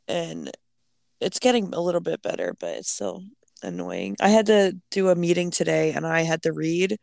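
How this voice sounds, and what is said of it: Hoarse, stuffy voice. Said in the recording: “I still sound really shitty ... I sound stuffy, but I also like started losing my voice for a while because of I was coughing ... I just sounded really hoarse”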